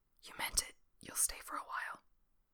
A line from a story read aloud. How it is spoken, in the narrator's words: whispers